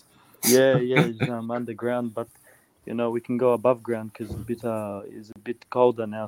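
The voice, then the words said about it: Mixed Czech, Australian and Greek accent. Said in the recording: “You have a bit of an interesting accent ... So I'm a bit Czech ... I grew up in Prague and a bit of Australian and Greek accent as well ... a bit of a mix of everything”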